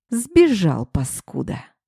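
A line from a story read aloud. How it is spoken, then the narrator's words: Growling. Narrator (Russian): прорычал он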